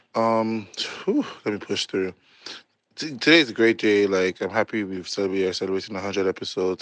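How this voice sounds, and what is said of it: Voice sounds off. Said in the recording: “I literally just left the dentist and I got my tooth taken out. So, like, bear with me for my voice sounds”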